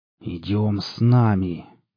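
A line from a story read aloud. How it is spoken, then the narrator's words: Hissing. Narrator (Russian): прошипел военный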